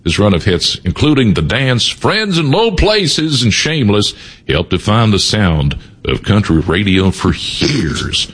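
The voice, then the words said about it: Put-on country twang. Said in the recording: “I don't know why I'm talking like this. ... I love the twang”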